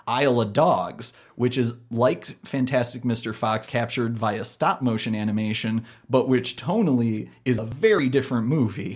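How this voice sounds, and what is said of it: Midwestern American accent. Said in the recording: “my Midwestern dialect ... the Midwestern twang”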